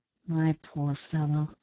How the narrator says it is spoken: said Ned in a soothing tone

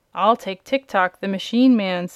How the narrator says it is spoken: said another

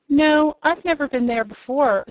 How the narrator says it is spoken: said the wizard

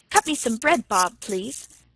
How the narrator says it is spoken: said Tilly hastily

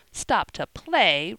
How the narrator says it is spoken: retorted Jo indignantly

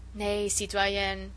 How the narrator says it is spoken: he said dryly and relentlessly

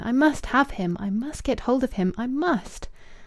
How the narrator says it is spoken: She cried passionately within her brain

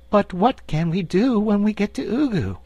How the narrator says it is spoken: inquired the Cookie Cook anxiously

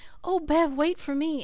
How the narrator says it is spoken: Cecily, behind me, kept gasping out

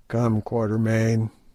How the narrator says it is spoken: groaned Sir Henry

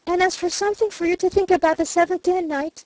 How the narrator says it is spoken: she gasped hurriedly

